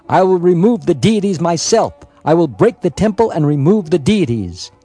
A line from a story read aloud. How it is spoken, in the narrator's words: N shouted